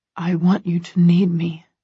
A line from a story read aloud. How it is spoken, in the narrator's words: he murmurs